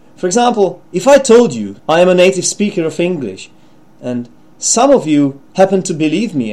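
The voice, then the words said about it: Non-native English accent. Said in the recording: “my accent wasn't actually native English accent because it wasn't polished enough”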